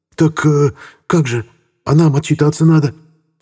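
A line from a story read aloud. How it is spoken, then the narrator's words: Babbling mumble. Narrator (Russian): залепетал Гузик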